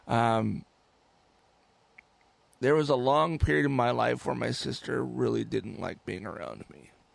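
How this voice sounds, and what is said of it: Emotional, tearful voice. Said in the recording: “I'm going to start getting emotional again. I'm sorry.”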